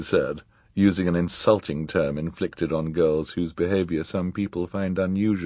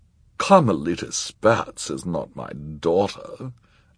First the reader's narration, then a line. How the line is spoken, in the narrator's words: Esme said haughtily